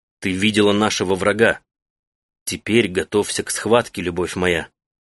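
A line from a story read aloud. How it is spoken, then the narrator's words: Plain. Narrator (Russian): сказал Таита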